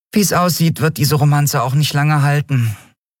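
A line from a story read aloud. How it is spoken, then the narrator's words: Sighing. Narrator (German): seufzte die Yadi schließlich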